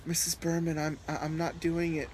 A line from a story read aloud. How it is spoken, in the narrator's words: Chris stammered